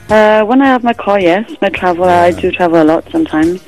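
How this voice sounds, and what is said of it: Welsh accent. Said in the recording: “You sound a bit Welsh ... I detected that accent”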